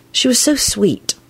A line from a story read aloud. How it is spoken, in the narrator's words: she said to Neville in an unsteady voice